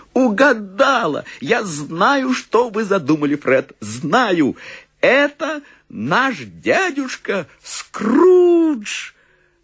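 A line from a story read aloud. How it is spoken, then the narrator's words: Exclamation with wild laughter. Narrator (Russian): пухленькая сестричка племянницы расхохоталась вдруг так же неистово и воскликнула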